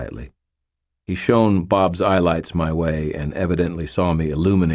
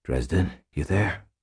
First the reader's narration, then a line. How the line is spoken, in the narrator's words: Butters asked in a hushed voice